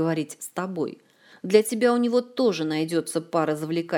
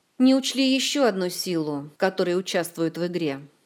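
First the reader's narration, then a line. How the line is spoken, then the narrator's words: Gloomy reply. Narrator (Russian): мрачно отозвался Кантор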